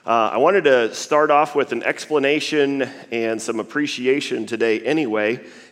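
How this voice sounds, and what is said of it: Worn, strained voice. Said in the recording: “I apologize for my voice a little bit this morning”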